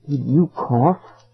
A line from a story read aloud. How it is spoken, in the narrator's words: I asked softly